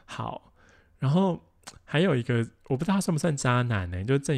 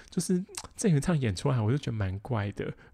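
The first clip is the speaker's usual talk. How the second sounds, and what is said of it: Speaking more quietly, lowered voice. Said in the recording (Chinese): “我讲讲小声一点”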